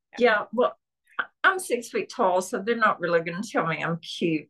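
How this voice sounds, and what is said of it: Southern US (Tennessee) accent. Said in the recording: “I've actually tried to keep my accent. I'm from Tennessee, and Tennessee and Georgia have very similar accents”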